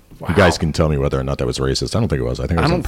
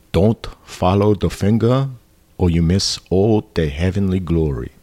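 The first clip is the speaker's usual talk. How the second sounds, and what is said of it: Bruce Lee impression. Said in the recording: “That's my Bruce Lee. ... That's your impression?”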